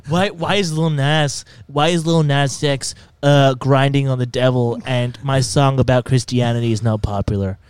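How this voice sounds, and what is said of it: Impression of Big Nick. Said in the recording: “I think that was a pretty good impression of him ... he sounds a lot like this. This is how he talks. I'm Big Nick.”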